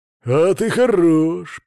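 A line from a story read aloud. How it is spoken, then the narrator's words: Growl. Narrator (Russian): прорычал Свари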